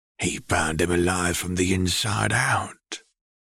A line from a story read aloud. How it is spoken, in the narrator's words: Reg whispered as he leaned forward